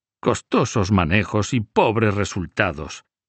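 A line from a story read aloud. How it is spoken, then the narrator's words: Grumbling. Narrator (Spanish): refunfuñaba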